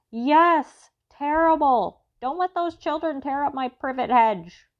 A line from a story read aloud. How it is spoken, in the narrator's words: Armstrong yelled back